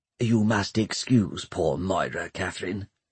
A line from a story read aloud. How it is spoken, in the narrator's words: whispered Pomeroy